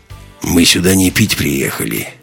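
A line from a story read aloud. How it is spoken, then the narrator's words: Grim tone. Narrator (Russian): мрачно произнес Ковальский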